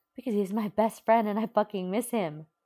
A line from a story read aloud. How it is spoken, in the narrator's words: Uraraka yells